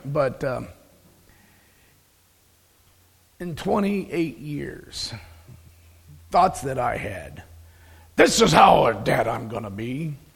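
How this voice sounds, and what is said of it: Strained voice cutting in and out. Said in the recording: “my voice has been in and out this week due to dust and thanks for the pollen count”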